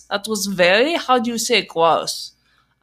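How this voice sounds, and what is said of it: Put-on German accent. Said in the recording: “I'm sorry, Germans, for the accent I've just done for you”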